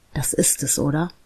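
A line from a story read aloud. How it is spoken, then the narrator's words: Whispered. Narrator (German): flüsterte er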